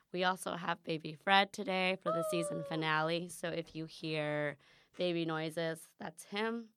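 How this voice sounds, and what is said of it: Hoarse, lower-sounding strained voice. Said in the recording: “my voice sounds... Someone told me my voice sounds mature. But I actually lost my voice practicing for a presentation... my voice sounds different”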